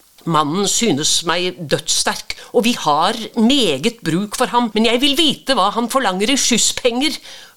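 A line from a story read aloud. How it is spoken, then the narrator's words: Terrified shout. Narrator (Norwegian): ropte presten skrekkslagen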